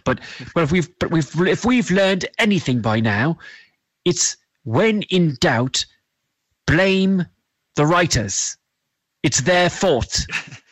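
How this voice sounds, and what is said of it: Strange mixed British-Southern accent. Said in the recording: “even our accents seem to have warped into one sort of strange British Southern accent”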